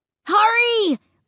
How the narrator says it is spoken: Luke cried

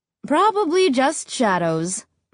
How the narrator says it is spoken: Mom said

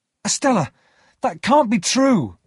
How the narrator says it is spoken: I cried

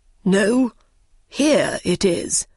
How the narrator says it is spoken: cried the king

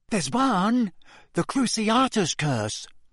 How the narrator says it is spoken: said Neville in a small but distinct voice

